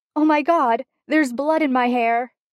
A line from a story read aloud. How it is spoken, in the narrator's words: a voice swears thickly at him, and then, horrified, says